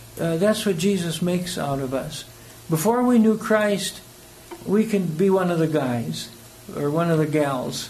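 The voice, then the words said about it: South African accent. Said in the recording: “I'm a kind of a foreigner in America, you know. I've got the right accent, and when I'm in South Africa, people ask me, well, when did you get here? Because somehow my accent doesn't change”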